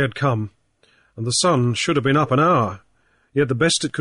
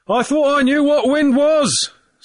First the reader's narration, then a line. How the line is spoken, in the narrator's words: Snow shouted in his owner's ear